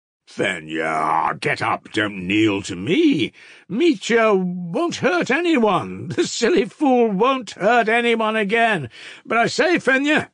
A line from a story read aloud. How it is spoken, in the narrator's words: shouted